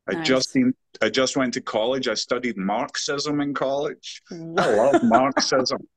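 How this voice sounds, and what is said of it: West Virginia accent. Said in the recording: “Isn't that a West Virginia accent? ... I'm from the mountains of West Virginia. That's right.”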